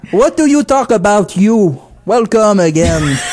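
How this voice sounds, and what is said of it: English with clumsy French accent. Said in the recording (French): “avec un accent tout boboche, francophone, croche”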